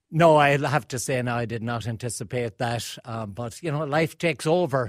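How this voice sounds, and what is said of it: Irish accent. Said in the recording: “you still have the Irish accent”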